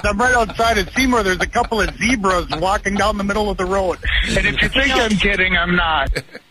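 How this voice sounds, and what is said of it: Wisconsin accent. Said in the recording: “They're from Wisconsin, and the accent's there.”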